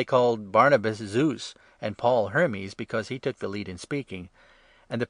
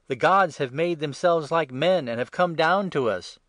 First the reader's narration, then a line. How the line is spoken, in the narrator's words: the crowd, seeing what Paul had done, called out in the Lycaonian language